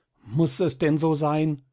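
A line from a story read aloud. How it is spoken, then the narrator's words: Calling out. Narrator (German): rief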